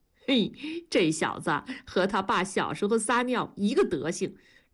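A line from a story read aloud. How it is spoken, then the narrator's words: Laughing. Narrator (Chinese): 文丽 笑着说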